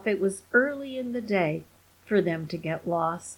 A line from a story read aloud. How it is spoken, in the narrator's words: groaned Randolph